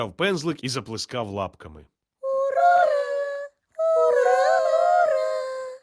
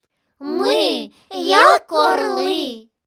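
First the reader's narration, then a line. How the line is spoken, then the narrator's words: Group squeaking. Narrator (Ukrainian): пищали вони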